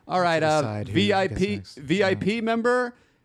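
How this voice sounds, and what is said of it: Good impression of a popcorn server. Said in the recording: “That was a really good impression. ... Of the popcorn guy?”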